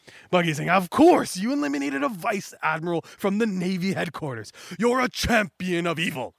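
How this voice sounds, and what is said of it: Usual voice. Nothing is said of it.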